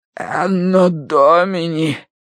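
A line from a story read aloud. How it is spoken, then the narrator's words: Hoarse rasp. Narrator (Russian): прохрипел клирик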